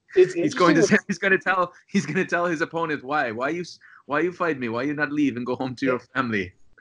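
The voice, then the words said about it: Put-on Russian accent. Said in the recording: “if you want to say it with a Russian accent”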